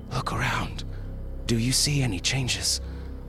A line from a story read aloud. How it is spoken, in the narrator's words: Poole said hoarsely